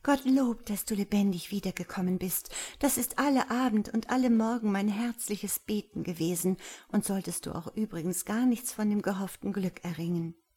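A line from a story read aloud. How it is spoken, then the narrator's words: Bashful whisper. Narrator (German): flüsterte sie verschämt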